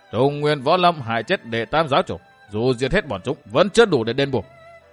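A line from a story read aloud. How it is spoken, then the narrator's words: Harsh, emphatic. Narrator (Vietnamese): Thất Sát La Sát gằn giọng bảo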